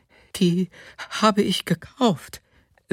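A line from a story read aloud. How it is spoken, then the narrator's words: Woman says anxiously. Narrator (German): sagte die Frau noch einmal ängstlich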